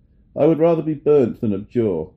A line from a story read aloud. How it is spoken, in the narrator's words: suddenly his courage revived, and he exclaimed